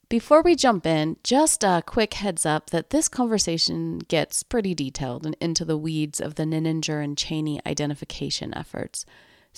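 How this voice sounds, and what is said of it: Voice sounds a bit off. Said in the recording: “I have a bit of a cold today, so my voice sounds a bit off”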